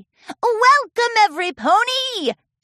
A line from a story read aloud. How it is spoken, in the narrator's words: yelled into her megaphone